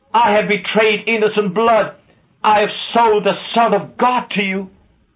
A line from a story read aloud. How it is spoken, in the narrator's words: yells